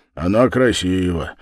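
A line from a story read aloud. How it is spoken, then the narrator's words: Firm assertion, then sigh. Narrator (Russian): вместо ответа утвердил Дуботолк и вздохнул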